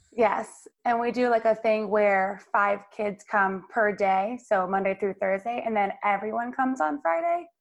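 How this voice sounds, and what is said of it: Raspy voice. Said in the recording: “I sound really raspy”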